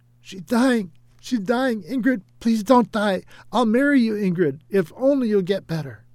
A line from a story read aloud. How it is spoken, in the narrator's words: Errol screamed hysterically